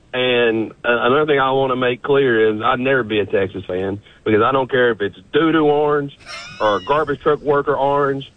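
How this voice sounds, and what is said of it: East Tennessee Southern accent. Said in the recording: “As you can tell, this accent is from Knoxville, Tennessee.”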